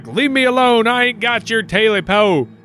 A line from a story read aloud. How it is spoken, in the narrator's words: Jake yelled back